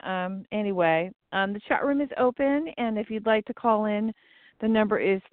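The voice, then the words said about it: Slightly rough voice. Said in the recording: “My voice is a little rough today... It's the allergy season.”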